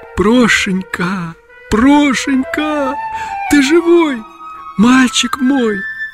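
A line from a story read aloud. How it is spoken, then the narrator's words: Tearful whisper. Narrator (Russian): Утерев концами платка слезы, Агафья прошептала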